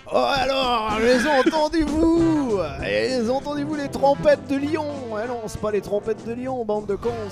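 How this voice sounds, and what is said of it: Put-on French accent. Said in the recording (French): “Fais-le avec un accent. ... Avec un accent. ... L'accent français.”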